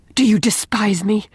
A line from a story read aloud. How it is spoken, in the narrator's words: demanded Leslie in a fierce, low tone